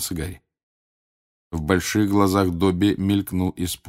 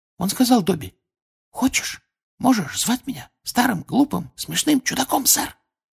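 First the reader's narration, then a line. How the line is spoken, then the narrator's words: Embarrassed whisper, nervous giggle. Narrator (Russian): Смущенно шепнул Добби и испуганно хихикнул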